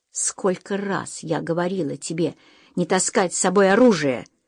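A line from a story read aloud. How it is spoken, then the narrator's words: Growled. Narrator (Russian): прорычала она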